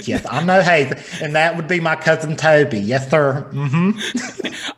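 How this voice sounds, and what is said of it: Put-on feminine Southern man accent. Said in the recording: “that's my feminine Southern man accent.”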